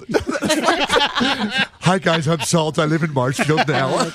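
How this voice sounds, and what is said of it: Impression of a co-host. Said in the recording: “I love his impersonation of Salt. ... That was spectacular.”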